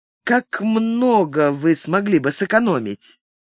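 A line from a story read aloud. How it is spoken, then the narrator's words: Calm, through teeth. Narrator (Russian): спокойно процедил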